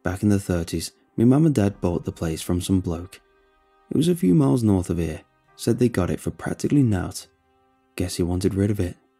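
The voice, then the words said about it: Gruff Yorkshire accent. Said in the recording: “His gruff Yorkshire accent”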